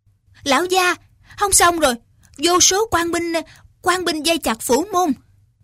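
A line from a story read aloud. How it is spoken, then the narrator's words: Panicked servants crying out. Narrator (Vietnamese): Mấy tên gia đình trong Tiêu phủ hốt hoảng kêu lên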